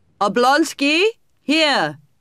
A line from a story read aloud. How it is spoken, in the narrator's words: Vronsky shouted